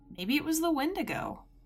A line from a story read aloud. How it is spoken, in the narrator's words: one of them said, and he laughed